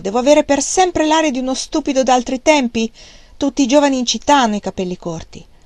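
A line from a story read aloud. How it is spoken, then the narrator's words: Shout. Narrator (Italian): lui le gridò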